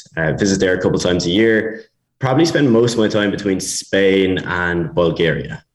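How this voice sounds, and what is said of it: Irish accent. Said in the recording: “I'm Irish, as you can probably tell from the accent.”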